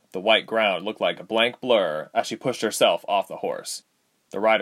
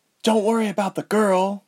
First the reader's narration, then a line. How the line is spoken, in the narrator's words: Ilse said through gritted teeth